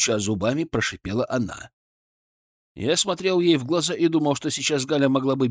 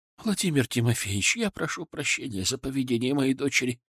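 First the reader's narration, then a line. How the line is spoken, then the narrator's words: Quiet. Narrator (Russian): тихо произнесла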